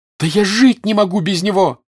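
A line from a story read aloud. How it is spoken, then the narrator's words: Shouting. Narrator (Russian): закричала Наташа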